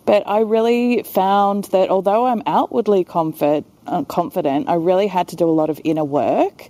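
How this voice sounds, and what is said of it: Australian accent. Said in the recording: “I've got an Aussie accent”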